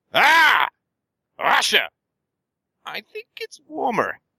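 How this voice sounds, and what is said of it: Imitates another person's voice. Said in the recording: “This is my impression of Hitler.”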